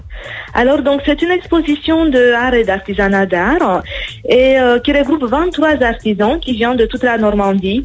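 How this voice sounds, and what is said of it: Slight Romanian accent in French. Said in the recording (French): “Il y a un petit accent ... je suis originaire de Roumanie ... j'adore l'accent”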